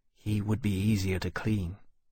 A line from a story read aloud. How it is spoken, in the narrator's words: he ducked his head in a shamefaced way and added in a smaller voice